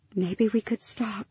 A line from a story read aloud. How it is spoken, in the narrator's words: Lyra whispered